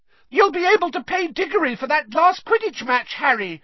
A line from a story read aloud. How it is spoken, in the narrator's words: shrieked Katie Bell, another of the Gryffindor chasers